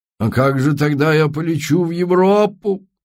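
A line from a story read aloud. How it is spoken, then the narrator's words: Suffering moan. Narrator (Russian): страдальчески простонал Эйнар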